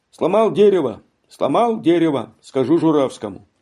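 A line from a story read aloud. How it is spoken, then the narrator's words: Shouting. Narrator (Russian): другой крикнул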